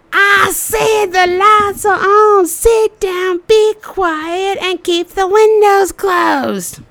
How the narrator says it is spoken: screams at me

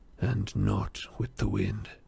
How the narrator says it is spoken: muttered Aragorn

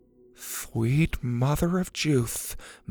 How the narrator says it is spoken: Mac mumbled

